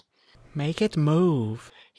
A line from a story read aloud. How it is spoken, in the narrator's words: he whined at his father